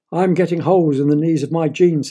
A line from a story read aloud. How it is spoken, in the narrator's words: said his father